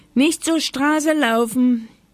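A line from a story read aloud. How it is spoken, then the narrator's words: Old woman calling from window. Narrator (German): rief Oma Huber vom Fenster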